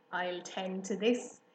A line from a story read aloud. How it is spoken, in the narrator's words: he chuckled